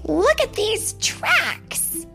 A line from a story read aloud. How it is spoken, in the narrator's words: said Thumper excitedly